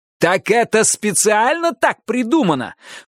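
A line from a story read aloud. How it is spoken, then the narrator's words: Shout. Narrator (Russian): прокричал я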